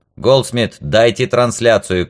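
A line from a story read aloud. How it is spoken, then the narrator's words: Shout. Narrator (Russian): крикнул Вальдо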